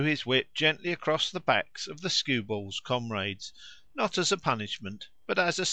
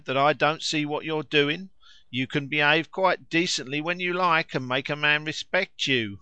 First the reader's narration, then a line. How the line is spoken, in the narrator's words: cried